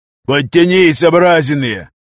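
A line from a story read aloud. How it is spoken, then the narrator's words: Barked command. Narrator (Russian): рявкнул штаб-сержант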